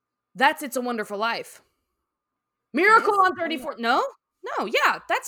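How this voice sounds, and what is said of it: Usual voice. Nothing is said of it.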